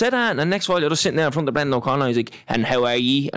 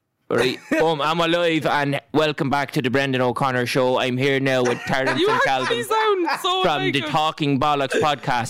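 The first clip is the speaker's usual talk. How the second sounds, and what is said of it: Imitates another person's voice. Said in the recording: “Impersonation of him is brilliant, to be fair. ... That was quality. ... I'm all right at the old impersonations”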